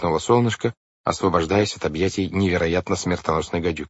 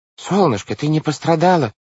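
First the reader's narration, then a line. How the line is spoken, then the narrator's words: Exclamation. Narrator (Russian): воскликнул мистер По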